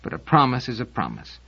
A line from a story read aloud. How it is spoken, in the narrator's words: mumbled Seldon